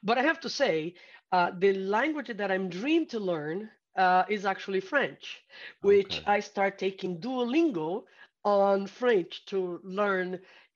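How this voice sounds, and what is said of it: Brazilian accent. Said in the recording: “I still have that Brazilian accent. I don't think I ever going to lose it.”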